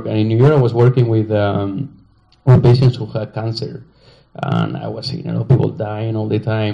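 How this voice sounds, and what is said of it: Spanish accent in English. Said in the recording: “I'm from Spain. No, you know this, and I have an accent.”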